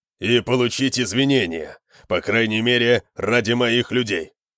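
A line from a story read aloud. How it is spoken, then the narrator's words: Growling. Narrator (Russian): прорычал Конан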